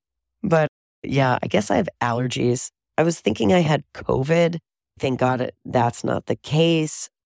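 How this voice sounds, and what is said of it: Voice noticeably deeper than usual. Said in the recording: “my voice is like now an octave deeper, I think.”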